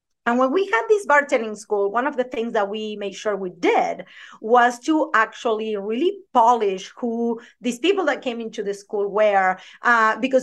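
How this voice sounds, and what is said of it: Thick Argentine accent. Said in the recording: “I have a thick accent ... I am originally from Argentina”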